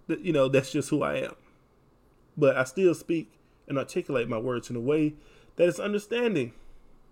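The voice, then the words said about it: Texas country accent. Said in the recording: “Have a country accent because I'm from Texas ... have this Texas country accent”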